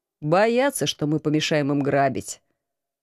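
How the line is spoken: Calm reply. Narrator (Russian): спокойно ответил командор

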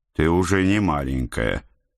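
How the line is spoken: Weary. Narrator (Russian): устало начал

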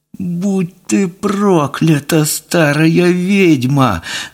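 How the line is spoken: Whimpering curse. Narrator (Russian): заскулил Тюря

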